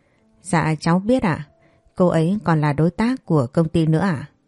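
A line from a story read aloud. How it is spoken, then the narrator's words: Soft laugh. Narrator (Vietnamese): tôi khẽ cười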